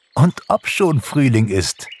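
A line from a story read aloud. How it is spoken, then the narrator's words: Laughing. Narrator (German): lachte Pixie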